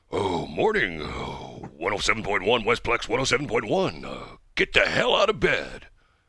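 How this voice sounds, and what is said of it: Imitates another person's voice. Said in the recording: “my old Bill Bailey impersonation.”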